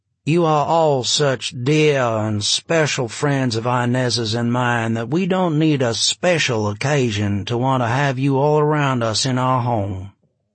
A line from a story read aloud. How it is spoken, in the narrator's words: he said in a bland, slightly feminine, Gulf Coast drawl